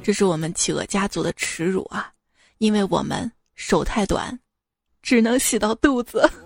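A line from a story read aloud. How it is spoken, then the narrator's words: Sighing father. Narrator (Chinese): 企鹅爸爸叹了一口气说道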